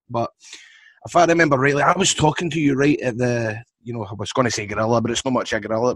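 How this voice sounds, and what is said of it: Scottish accent. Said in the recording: “the Scottish accent can throw you a wee bit”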